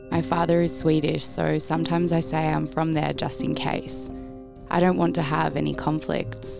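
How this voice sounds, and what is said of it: Russian accent in English. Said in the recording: “people don't always know where my accent is from ... people knew I was Russian”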